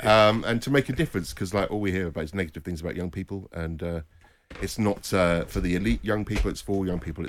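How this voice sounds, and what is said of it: Strong Scouse (Liverpool) accent. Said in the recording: “my outrageous Scouse accent”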